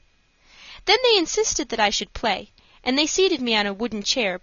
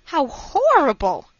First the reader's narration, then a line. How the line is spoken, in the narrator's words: I exclaimed